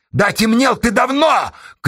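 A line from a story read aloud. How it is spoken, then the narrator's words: Interrupting shout. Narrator (Russian): крикнула Сташа, перебивая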